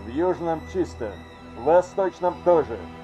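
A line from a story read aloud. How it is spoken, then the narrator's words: Crackling device voice. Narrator (Russian): протрещал комлинг другим голосом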